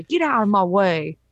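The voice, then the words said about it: Put-on New York accent. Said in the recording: “That was my flawless New York accent.”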